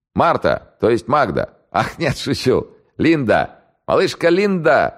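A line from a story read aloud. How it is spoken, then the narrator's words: Laughing. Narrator (Russian): засмеялся старший майор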